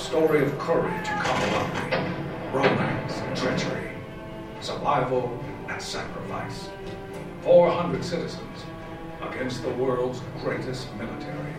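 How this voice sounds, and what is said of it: Deep narrator voice like Morgan Freeman. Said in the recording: “Sounds like Morgan Freeman or something. ... Sounds like Morgan Freeman. It's a Morgan Freeman knockoff.”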